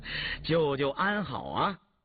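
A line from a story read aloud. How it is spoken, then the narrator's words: Smiling. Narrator (Chinese): 允嗣微笑着说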